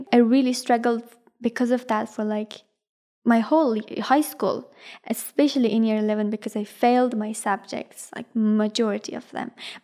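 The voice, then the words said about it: Non-native English accent. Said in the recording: “I had to repeat myself all the time... my accent”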